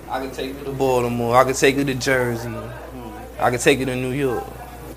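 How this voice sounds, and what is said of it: Mixed New York and country accent. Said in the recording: “you have like this funny accent... It sounds New Yorkish... it's New Yorkish and it's country. And then it got a twist. Like you from California also... I hear a little West Coast.”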